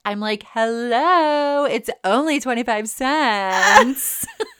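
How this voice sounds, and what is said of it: Ditzy blonde character voice. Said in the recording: “You like my ditzy blonde impersonation?”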